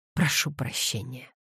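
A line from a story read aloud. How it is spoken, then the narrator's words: Groaning mumble. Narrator (Russian): со стоном пробормотал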